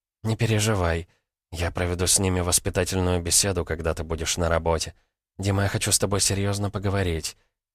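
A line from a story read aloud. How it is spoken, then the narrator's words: Whispered. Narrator (Russian): прошептала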